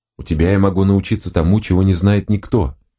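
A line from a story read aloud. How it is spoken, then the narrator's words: Plain. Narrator (Russian): ответил Эндер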